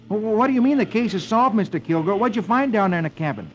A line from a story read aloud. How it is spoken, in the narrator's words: Rusty exclaims